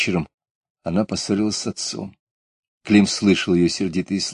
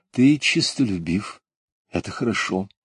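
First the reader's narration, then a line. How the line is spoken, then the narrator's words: Gentle soothing praising mother. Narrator (Russian): Мать, ласково успокаивая его, сказала много милых слов и даже похвалила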